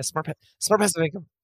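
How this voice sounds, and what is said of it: Very fast speech. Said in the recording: “You said that so fast.”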